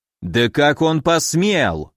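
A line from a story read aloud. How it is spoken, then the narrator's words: Furious growl. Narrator (Russian): рычал взбешенный Нарышкин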